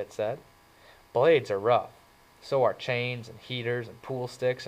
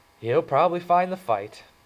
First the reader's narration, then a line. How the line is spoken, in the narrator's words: Two-Bit stated cheerfully